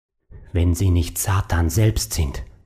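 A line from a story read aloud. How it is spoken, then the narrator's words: Hoarse murmur. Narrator (German): murmelte er heiser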